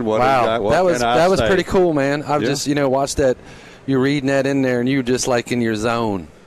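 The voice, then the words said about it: Crusty Philadelphia accent. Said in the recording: “my crusty Philly accent”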